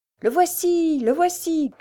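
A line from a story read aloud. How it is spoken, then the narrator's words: Shouts from everywhere. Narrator (French): criait-on de toutes parts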